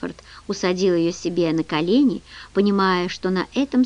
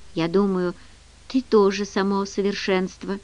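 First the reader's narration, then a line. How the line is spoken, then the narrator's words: Tender. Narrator (Russian): нежно сказала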